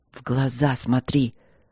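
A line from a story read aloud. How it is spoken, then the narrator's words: Growled. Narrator (Russian): рыкнул он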